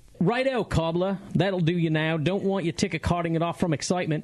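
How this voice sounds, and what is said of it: Put-on Australian accent. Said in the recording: “He insists that I do this in an Australian accent.”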